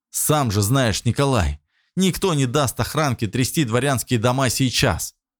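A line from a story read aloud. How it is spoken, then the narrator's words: Smirking grunt. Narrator (Russian): хмыкнул Богдан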